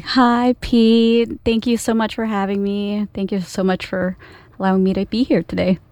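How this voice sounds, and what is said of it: Polished radio announcer voice. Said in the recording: “Nice radio voice.”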